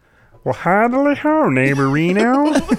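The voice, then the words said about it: Ned Flanders cartoon character voice. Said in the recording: “Can you do a Flanders? ... That was better than his.”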